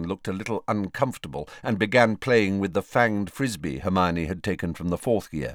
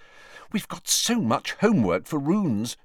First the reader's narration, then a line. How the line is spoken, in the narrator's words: she said anxiously